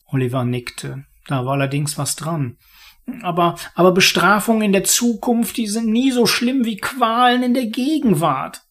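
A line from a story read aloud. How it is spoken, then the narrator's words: Murmur. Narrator (German): murmelte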